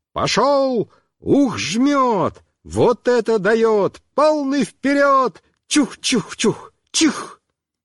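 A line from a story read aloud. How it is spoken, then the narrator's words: Yelling. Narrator (Russian): Мишка орал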